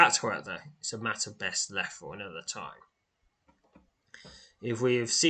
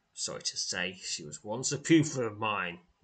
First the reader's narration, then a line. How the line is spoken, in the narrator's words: says, his tone becoming grim